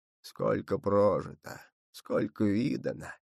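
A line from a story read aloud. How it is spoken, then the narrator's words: Soft muttering, old man. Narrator (Russian): тихонько бормотал дед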